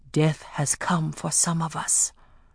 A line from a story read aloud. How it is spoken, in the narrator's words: whispered